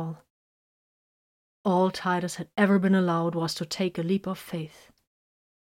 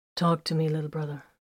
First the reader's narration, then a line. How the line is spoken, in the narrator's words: said softly